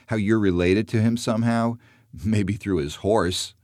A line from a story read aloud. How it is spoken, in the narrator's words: laughs